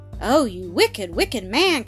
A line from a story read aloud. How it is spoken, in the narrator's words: cried Ethel with a burst of tears